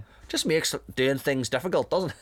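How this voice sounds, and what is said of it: Generic Northern Irish accent. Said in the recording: “I'm just giving him a generic Northern Ireland accent”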